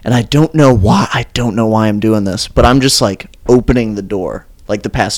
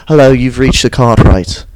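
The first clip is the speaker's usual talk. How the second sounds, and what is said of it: Imitated British accent. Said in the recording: “an angry British guy ... my best Charlie accent”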